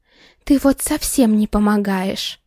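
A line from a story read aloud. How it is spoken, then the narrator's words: Loud hiss. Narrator (Russian): Шипение Светки разносилось по всему кафе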